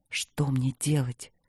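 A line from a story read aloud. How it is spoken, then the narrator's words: Lost, bewildered whisper. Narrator (Russian): прошептал он потерянно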